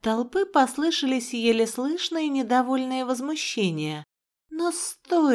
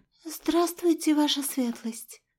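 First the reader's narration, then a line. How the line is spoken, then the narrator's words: Awed, fearful mumble. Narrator (Russian): Пробормотала она со священным ужасом и одновременно благоговением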